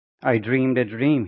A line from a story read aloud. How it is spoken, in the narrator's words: he said